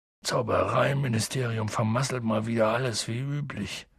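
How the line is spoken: Grumbling. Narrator (German): brummte Hagrid

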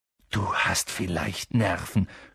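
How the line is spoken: Groaned. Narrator (German): stöhnte Ron

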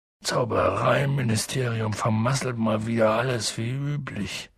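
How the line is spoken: Grumbling. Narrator (German): brummte Hagrid

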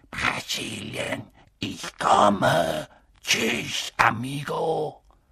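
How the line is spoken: Soft hissing voice. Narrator (German): eine leise, zischende Stimme sagte

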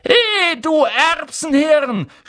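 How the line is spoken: Shouted across the room. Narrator (German): schrie Ron von der anderen Seite des Raums

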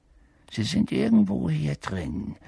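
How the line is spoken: Murmured. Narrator (German): hörten sie ihn murmeln

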